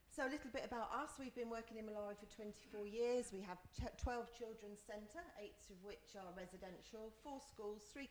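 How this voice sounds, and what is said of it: Fast, breathless speech. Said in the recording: “I'm going quick, eh? I'm out of breath.”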